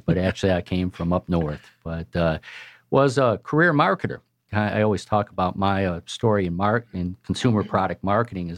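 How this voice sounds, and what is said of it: Southern American accent. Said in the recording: “everybody mistakes my southern accent”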